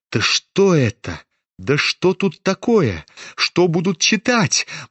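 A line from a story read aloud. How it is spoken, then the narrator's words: Gloomy muttering. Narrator (Russian): Мрачно бормотали некоторые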